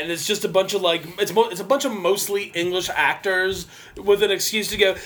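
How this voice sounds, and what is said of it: Usual voice. Nothing is said of it.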